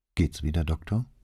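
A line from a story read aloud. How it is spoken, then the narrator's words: Quiet question. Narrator (German): fragte er leise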